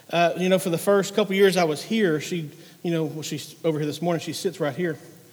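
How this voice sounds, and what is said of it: Country accent. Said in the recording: “she just loves my country accent ... You think I talk country?”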